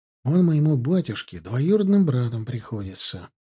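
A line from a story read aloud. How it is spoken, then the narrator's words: Quiet. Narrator (Russian): произнес тихо Марков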